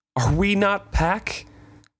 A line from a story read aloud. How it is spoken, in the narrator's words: Desperation as throbbing as a wolf's drawn-out howl